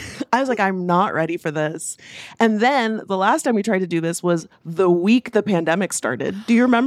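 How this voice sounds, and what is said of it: Usual voice. Nothing is said of it.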